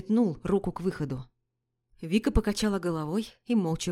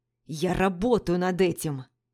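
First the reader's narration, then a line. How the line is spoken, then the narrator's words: Barking. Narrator (Russian): рявкнул я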